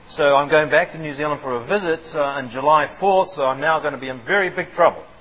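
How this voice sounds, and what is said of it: Mixed New Zealand and American accent. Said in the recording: “I've got this funny accent ... this funny mix ... I've now lost the Kiwi accent ... this twang, this Yankee twang”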